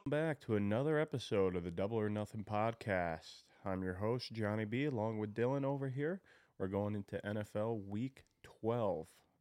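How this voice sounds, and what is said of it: Rough, unwell-sounding voice. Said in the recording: “Excuse my voice this week. I'm struggling, battling a cold.”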